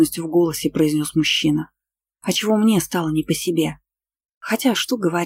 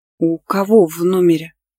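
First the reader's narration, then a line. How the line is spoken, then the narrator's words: Hoarse wheeze. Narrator (Russian): Просипела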